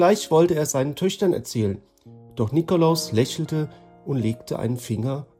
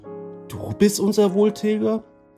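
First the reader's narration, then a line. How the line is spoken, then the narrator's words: Calling out. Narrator (German): rief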